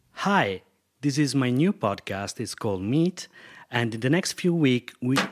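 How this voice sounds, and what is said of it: Non-native English accent. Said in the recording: “Can you hear my accent? ... Can you tell I'm not a native English speaker?”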